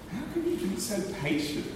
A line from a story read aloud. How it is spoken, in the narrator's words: she asks